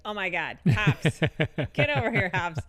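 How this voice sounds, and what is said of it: Put-on regional hometown accent. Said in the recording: “they all have the accent that I don't have anymore, though. I kind of put it on ... I kind of play the accent that I lost when I went to college”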